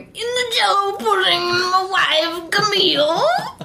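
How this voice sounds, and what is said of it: Bill Cosby impression. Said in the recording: “doing a Bill Cosby impression”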